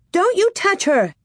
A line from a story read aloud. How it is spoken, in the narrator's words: Nellie screeched